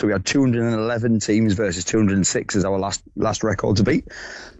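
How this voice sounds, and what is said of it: Hoarse voice. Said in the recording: “Were you doing a lot of shouting over the weekend? Because you sound quite hoarse.”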